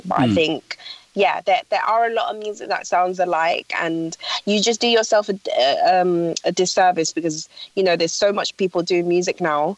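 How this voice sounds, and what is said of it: London British accent. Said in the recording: “I got an accent, a London British accent”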